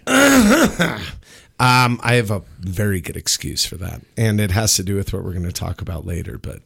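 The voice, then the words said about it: Rough, raspy voice. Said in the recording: “my voice is even rougher ... you're a little raspy”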